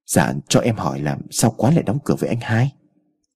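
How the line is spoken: Soft ingratiating smiling question. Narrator (Vietnamese): liền nhuyễn miệng cười lấy lòng, nhỏ nhẹ hỏi

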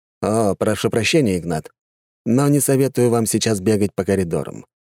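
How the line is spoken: Calm. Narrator (Russian): спокойно сказал агент

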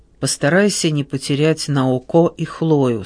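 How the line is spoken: Plain. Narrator (Russian): сказал Паола

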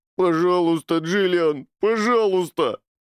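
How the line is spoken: Whining. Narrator (Russian): захныкал он

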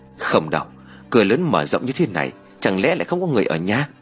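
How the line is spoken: Doubtful muttering. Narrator (Vietnamese): Khuôn mặt của Tin Béo biểu lộ sự nghi hoặc, lẩm bẩm nói

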